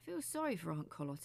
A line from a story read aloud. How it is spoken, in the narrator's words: he said